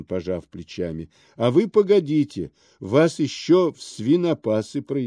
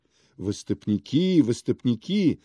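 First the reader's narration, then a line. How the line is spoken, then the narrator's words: Joyful crowd chanting. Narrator (Russian): радостно подхватила толпа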